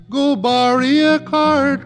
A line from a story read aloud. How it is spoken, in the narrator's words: cried Billy Barlow